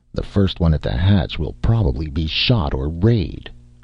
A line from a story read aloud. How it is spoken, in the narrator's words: grumbled Shanklin